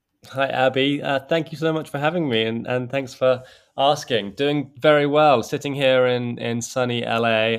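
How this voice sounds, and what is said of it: English accent. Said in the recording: “back home in England. As you can tell from the accent, it's where I'm originally from.”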